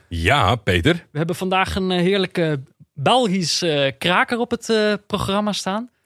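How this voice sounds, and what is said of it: Imperfect put-on Belgian accent. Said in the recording (Dutch): “je begon in het accent ... meer Belgen ... een gebrekkig eh, accent”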